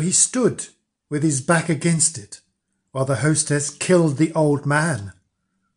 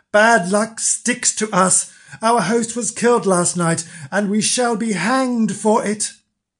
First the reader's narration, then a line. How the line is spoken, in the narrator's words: cried they